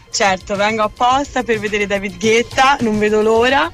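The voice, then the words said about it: Tuscan Italian accent. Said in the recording (Italian): “Un po' si sente. ... Sente l'accento toscano.”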